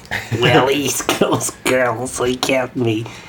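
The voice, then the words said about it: Creepy old man voice. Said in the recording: “a really creepy old man voice”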